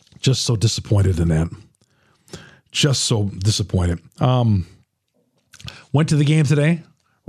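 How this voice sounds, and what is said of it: Slightly hoarse, strained voice. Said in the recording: “Losing my voice a little bit”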